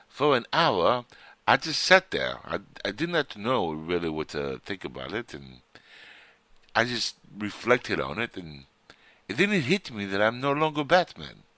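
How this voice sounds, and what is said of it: Bad put-on British accent. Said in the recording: “I'm gonna use my best British Bale action here ... really bad uh, accent ... that was a great French accent ... Scottish or from Wales”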